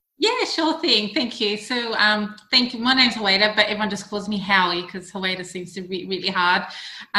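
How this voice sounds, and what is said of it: Australian accent. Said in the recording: “You may recognise my accent as being Australian”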